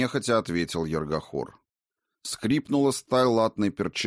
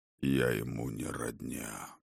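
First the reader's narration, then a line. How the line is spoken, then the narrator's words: Even voice. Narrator (Russian): Ровным голосом отозвался водитель мертвых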